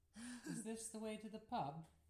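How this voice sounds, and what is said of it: Poor attempt at an accent. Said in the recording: “That was a very poor attempt at an accent.”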